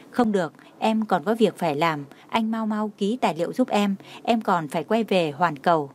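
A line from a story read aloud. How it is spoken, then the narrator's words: Smiling, light tone. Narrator (Vietnamese): Đường Khải Hinh mỉm cười, nói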